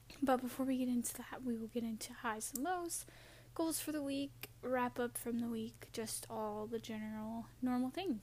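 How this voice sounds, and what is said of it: Hoarse, fading voice. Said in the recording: “I am losing my voice. I apologize.”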